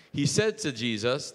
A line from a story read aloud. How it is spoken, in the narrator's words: shouted out